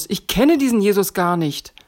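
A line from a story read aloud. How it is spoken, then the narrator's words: Calling out. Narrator (German): rief Petrus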